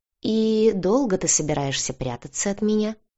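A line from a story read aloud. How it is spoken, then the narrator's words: Insinuating, silky. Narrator (Russian): вкрадчиво поинтересовался волк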